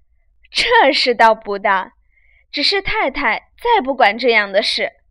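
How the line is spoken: Laughing. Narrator (Chinese): 凤姐笑道

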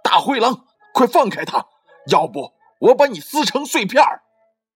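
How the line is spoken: Fierce frantic shout. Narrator (Chinese): 橘子老虎怕大灰狼把小羊吃掉，毫不疑迟地对着大灰狼狂喊道

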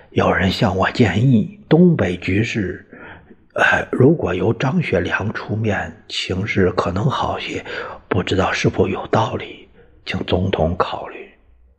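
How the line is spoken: Speaking in low voice. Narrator (Chinese): 于右任低声说

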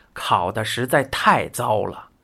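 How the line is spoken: Sighing. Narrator (Chinese): 食神不禁叹气

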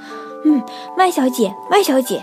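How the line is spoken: Shouting. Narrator (Chinese): 他大叫

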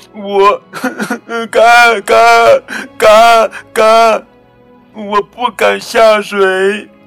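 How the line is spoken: Crying duckling. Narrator (Chinese): 小鸭子哭着说

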